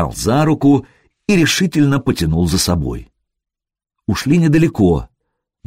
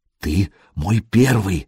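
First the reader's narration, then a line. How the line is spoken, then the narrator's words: Whispered. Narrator (Russian): шепнула Буданка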